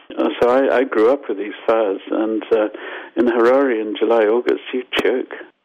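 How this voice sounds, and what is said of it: Zimbabwean accent. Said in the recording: “I'm Zimbabwean, as you probably got from my accent. ... Zimbabwean Canadian”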